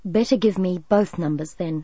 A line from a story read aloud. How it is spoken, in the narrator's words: Chris said calmly